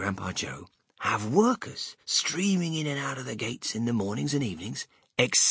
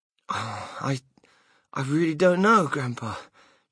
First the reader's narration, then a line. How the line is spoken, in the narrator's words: Charlie stammered